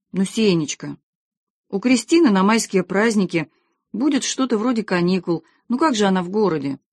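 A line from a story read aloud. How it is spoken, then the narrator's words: Timid. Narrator (Russian): Томочка робко сказала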